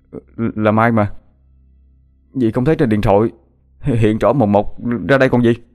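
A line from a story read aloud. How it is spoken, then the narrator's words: Stammering. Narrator (Vietnamese): Hoàng lắp bắp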